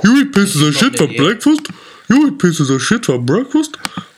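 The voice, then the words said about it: Imitates another person's voice. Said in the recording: “my Adam Sandler impression”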